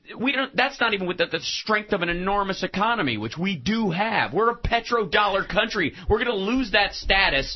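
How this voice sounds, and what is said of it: Verging on Bob Goldthwait-style ranting. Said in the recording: “You're tottering on your Bob Goldthwait impression.”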